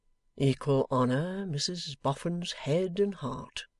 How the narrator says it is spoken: Lightwood murmured

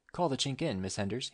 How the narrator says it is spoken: he said

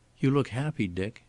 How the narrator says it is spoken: said wistfully

